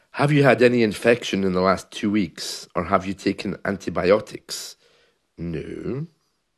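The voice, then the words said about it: Congested voice with a cold. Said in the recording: “you can hear from my voice that I have a cold.”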